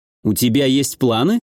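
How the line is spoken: Wry grunt. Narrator (Russian): я хмыкнул

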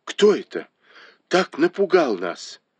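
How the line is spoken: Exclaimed. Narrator (Russian): Бао Юй воскликнул

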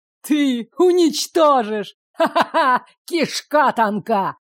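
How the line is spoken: Laughter breaking into coughing. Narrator (Russian): Расхохотался и зашелся кашлем Гидеон

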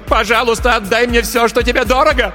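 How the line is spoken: Screamed. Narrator (Russian): Затем она закричала

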